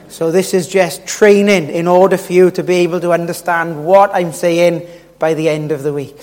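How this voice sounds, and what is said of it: Strong accent, hard to understand. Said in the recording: “by Friday night, you might be able to understand my accent.”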